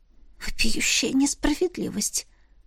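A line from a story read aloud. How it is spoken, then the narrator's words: Hoarse whisper. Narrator (Russian): хрипло прошептала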